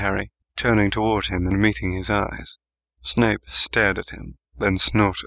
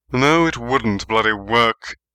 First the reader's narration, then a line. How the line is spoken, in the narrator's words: Snape snapped at him